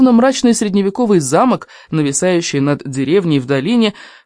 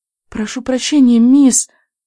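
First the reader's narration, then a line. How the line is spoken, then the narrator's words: Squeaky thin voice. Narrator (Russian): пропищала тоненьким голоском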